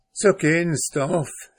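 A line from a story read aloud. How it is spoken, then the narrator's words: Plain, mother. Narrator (German): sagte die Mutter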